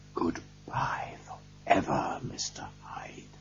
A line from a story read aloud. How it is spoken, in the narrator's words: whispered